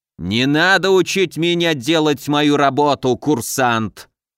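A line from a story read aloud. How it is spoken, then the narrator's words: Growled. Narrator (Russian): прорычал Разумовский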